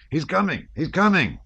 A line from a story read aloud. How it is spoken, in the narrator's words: shouted a Cossack